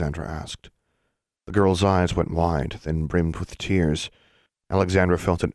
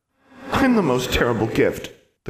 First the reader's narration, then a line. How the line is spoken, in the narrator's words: the girl cried